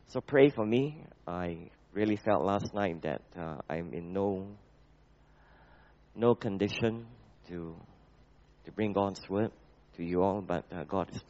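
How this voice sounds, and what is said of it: Raspy, hoarse voice. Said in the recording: “My voice is the way it is today, okay? It sounds like Bonnie Tyler. ... My voice is the way it is today because last night I shouted at my kids”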